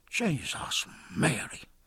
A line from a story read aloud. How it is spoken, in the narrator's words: muttered Dillon